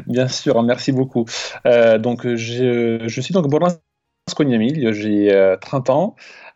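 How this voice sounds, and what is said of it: Italian-Croatian accent in French. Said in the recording (French): “tu as un joli accent en plus ... je suis italo-croate, pour la précision, donc d'où l'accent”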